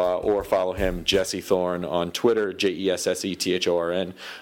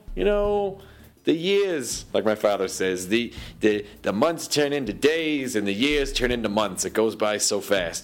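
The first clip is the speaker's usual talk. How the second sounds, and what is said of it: Put-on accent imitating a voice. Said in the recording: “My father does not have this accent, but this is how I'm representing him ... Now I just sound like Eddie Pepitone.”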